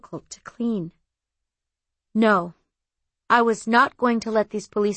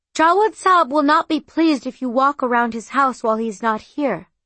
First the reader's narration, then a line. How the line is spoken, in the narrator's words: I called out